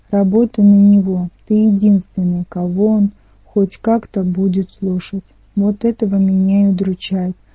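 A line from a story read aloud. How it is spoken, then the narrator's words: Sighing. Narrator (Russian): вздохнул Ника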